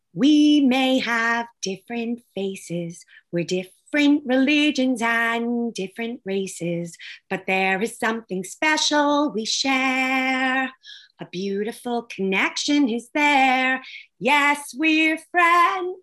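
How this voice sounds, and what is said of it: Hoarse singing voice. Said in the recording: “I'm sorry, I'm so hoarse.”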